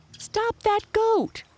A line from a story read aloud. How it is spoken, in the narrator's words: cried the first boy